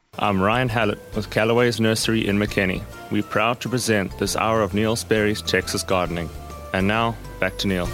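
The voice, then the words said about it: Noticeable regional accent. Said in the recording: “Love that accent. Love that accent.”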